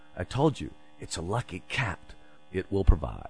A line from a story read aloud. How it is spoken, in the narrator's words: he stepped to her and whispered